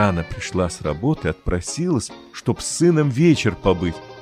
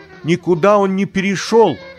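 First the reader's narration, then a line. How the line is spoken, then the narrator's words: Shouting, mother. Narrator (Russian): крикнула Богданова мама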